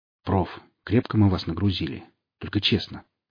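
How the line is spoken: Low-voiced question. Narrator (Russian): поинтересовался я вполголоса

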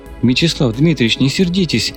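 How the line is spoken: Slightly frightened young man. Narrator (Russian): слегка испуганным голосом произнес парень

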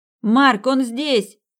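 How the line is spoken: Shouted into microphone. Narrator (Russian): крикнула она в микрофон

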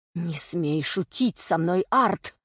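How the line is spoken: Angry growl. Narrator (Russian): зарычал Реванс

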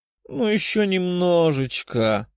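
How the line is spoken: Purring. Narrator (Russian): промурлыкала Катя

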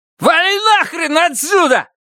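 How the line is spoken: Shout. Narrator (Russian): выкрикнул сосед Страйка

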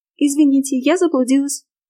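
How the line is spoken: Timid squeak. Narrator (Russian): пискнула

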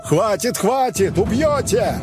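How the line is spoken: Shouting from the side. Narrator (Russian): Со стороны закричали

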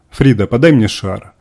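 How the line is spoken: Commanding woman's voice. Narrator (Russian): командным голосом произнесла женщина

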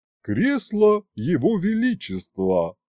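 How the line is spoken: Solemn proclamation. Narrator (Russian): Гюнтер, торжественно провозгласив

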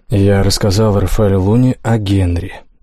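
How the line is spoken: Lifeless voice. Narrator (Russian): безжизненным голосом отвечает Алекс

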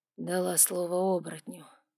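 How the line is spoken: Tired, curt. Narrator (Russian): бросил он устало

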